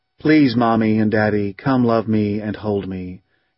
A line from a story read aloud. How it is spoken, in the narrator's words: in a kind of monotone of pathos